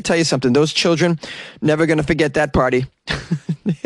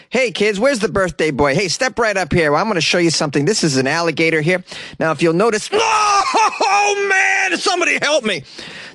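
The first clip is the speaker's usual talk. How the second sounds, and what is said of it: Acted voice of party animal handler. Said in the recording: “That was my impression of what happened at the birthday party.”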